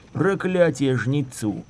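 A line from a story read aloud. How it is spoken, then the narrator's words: Muttered. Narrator (Russian): пробормотал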